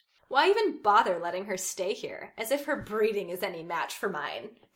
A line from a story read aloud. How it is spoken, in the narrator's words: Draco scoffed at his friends